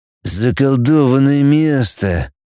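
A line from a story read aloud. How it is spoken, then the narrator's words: Through gritted teeth. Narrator (Russian): процедил рыжий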